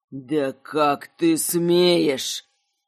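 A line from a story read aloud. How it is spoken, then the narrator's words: Sudden anger, boar. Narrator (Russian): Медленно тлевшее раздражение кабана вспыхнуло гневом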